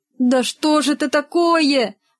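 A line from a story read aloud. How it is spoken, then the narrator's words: Pleading. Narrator (Russian): взмолился Рогов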